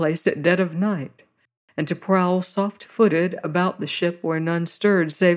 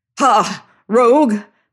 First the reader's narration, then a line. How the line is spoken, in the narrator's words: cried